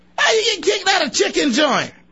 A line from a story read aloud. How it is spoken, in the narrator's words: I yelled at them